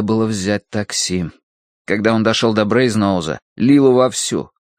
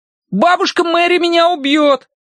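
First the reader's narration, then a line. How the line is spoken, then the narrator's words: Shouting after someone. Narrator (Russian): крикнул Колин ему вслед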